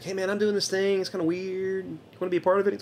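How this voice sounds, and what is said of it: Imitates another person's voice. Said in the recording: “That's not a good Alan Law impersonation.”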